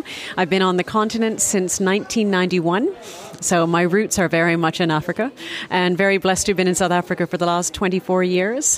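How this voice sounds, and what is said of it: Canadian English accent. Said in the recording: “my accent is Canadian”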